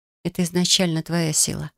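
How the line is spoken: Whisper. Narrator (Russian): прошептала

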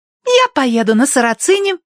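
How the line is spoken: Exclaimed. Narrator (Russian): воскликнула Агнес

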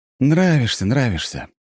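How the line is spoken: Sighing. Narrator (Russian): вздохнул я

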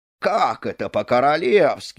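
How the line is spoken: Group exclamation. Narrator (Russian): воскликнули придворные

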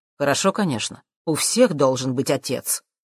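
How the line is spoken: Unpleasant tone. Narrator (Russian): каким-то неприятным тоном произнес Джим

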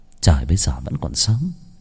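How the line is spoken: Muttering. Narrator (Vietnamese): Nàng lẩm bẩm

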